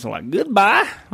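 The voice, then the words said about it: Strong put-on redneck accent. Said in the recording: “they say goodbye, but just in a really strong redneck accent”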